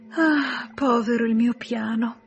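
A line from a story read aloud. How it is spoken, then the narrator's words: Sighing. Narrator (Italian): sospirava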